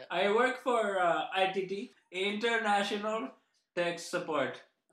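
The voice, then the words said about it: Strong put-on foreign accent. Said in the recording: “Sorry, I didn't understand by your strong accent.”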